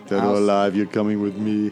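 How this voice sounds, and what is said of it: RoboCop impression. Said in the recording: “my best RoboCop impression”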